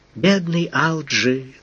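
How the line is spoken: Sighing. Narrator (Russian): вздохнула Оюми

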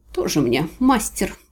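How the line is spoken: Grumbling. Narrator (Russian): проворчала я

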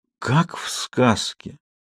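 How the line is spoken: Whisper. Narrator (Russian): прошептала Самсуд

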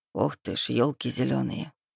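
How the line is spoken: Muttered. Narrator (Russian): пробормотал Лука

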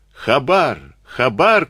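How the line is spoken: Group shouting. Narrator (Russian): кричали они

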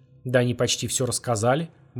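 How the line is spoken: Gloomy tone. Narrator (Russian): мрачно произнес тот

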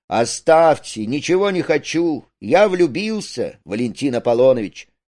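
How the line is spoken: Loud. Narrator (Russian): Рудик громко

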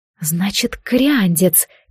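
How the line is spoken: Quiet. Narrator (Russian): тихо повторила Джад

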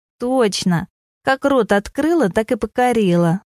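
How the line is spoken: Laughing loudly. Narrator (Russian): захохотала Леська

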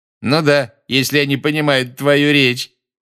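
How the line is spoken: Loud remark. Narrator (Russian): громко заметил Малфой

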